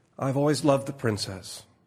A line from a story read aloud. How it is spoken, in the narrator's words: she said sadly